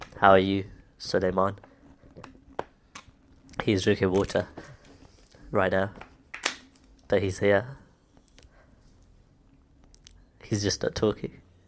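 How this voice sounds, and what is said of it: Nasal, congested voice. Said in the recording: “My voice is very nasally because I'm ill”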